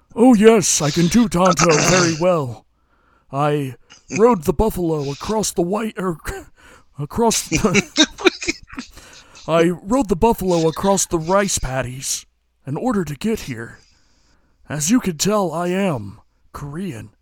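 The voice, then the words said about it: Exaggerated stereotyped Tonto impersonation. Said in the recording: “talk with the most racist accent in the entire world ... can you do your best Tonto impersonation”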